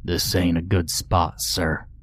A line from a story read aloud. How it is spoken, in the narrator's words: Ned said to me in a low voice